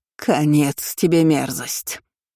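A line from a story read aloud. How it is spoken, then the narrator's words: Hissing aunt. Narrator (Russian): зашипела одна из теток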